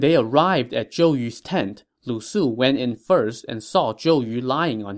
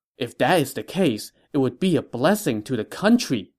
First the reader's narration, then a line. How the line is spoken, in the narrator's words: Lu Su exclaimed